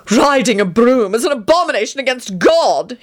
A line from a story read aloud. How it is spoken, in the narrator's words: he screamed